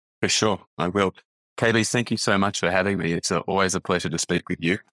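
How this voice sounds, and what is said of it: Australian accent. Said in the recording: “you are obviously an Australian, which people will hear your accent soon”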